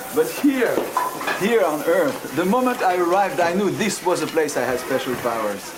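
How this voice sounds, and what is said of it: French accent. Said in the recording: “you're French ... your French accent”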